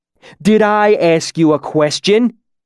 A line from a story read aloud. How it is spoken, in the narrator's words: he shouted